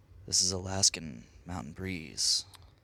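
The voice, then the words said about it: Calm, soothing nature-documentary narrator voice. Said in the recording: “You just went like Sir David Attenborough with it ... have this really calm voice”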